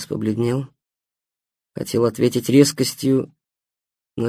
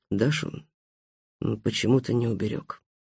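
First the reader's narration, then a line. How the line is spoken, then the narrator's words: Muttering. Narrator (Russian): пробормотал Стас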